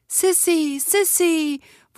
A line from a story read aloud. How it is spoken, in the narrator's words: voices cried